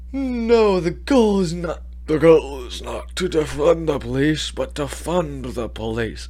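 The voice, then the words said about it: Imitates another person's voice, sounds dying. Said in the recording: “my best Biden impression. I know it sounds like I'm dying, but, you know, it's pretty accurate”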